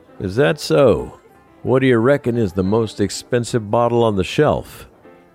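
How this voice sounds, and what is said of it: Mock thick Texas accent. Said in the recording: “I mocked his thick Texas accent as a joke.”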